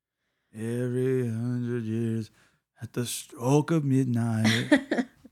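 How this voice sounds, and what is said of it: Creepy accent. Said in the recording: “He had to say it with that creepy accent, too.”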